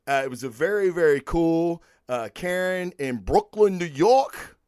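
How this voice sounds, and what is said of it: Poor put-on Brooklyn accent. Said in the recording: “my Brooklyn, New York accent. It sucks.”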